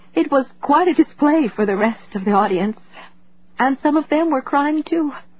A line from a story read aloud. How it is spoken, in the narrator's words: She half sobbed, half laughed, as she said